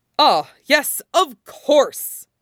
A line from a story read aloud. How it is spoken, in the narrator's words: All Might boomed